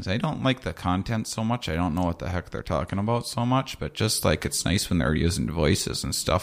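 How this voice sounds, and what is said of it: Put-on cheerful Midwestern accent. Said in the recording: “I could do my Midwestern character. It's just like real happy about everything ... the accent that you're doing”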